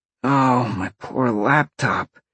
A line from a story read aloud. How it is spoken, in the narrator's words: Sean sighed